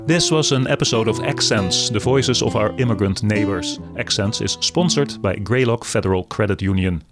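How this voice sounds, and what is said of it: Dutch accent. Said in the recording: “my accent is Dutch”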